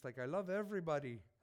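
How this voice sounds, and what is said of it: Put-on Italian accent. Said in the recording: “That's my best Italian accent. I don't know what it sounded like, but because I'm sick, it probably sounded worse.”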